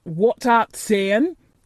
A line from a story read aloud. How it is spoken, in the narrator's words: he asked rather testily, because he did not want his attention distracted